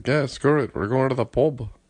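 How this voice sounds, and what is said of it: Poor put-on Irish accent. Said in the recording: “I know my Irish accent's terrible”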